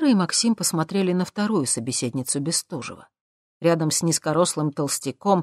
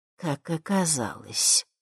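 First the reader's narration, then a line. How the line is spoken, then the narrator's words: Displeased, through teeth. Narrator (Russian): недовольно процедила мадам Анаит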